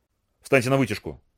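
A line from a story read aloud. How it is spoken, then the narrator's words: Rapid mutter. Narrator (Russian): скороговоркой пробормотал Дарол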